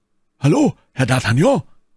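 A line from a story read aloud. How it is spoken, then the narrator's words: Calling out. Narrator (German): rief er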